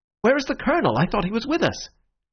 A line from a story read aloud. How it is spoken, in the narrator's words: Syme cried out like a man waking from sleep